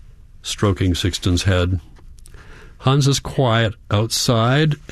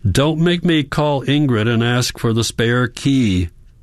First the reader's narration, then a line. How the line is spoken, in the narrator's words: Hans shouts, his forehead against the glass